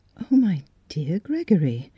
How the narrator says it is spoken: she murmured gently

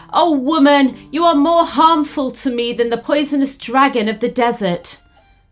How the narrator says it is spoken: Full of these sad thoughts, he shouted out loud

